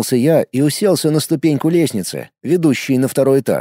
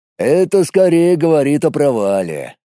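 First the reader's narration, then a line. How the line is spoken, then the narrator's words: Gloomy. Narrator (Russian): мрачно предположил Колян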